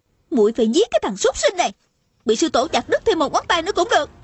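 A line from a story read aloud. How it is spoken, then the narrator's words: Furious yelling. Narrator (Vietnamese): Tôn Trọng Quân lại càng tức tối la lên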